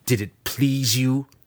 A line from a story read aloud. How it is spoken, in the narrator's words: He spat